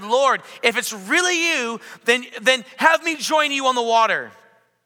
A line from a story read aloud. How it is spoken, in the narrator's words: Peter shouted